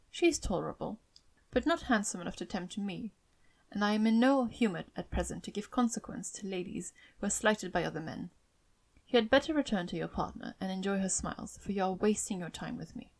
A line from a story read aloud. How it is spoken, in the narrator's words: coldly said